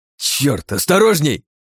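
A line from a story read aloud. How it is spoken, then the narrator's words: Barking. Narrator (Russian): рявкнул я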